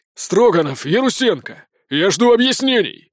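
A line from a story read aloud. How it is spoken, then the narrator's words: Barked shout. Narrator (Russian): гаркнул он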